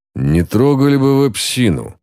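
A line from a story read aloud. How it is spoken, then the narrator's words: Grumbling in unison. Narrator (Russian): в унисон с нею проворчал господин Хитклифф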